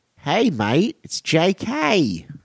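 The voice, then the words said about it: Put-on Australian accent. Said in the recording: “is that a good impression? Is that a horrible impression? Sorry. Sorry, Aussies everywhere.”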